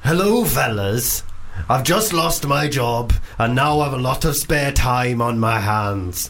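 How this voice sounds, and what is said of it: Poor put-on Welsh accent. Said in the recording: “Welsh, because I've heard your Welsh accent. ... I'm bad at Welsh. ... Genuinely dreadful. ... I can only do Rod Gilbert.”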